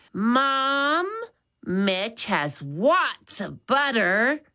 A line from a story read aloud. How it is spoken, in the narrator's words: said loudly